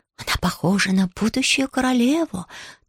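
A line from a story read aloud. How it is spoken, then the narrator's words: Whisper from behind. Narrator (Russian): кто-то у нее за спиной шепнет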